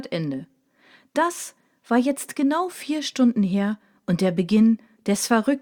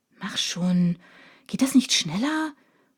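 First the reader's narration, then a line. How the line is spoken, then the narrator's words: Grumbling. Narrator (German): brummelte Biene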